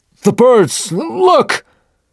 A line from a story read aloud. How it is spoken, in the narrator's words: Suddenly, Tashtego shouted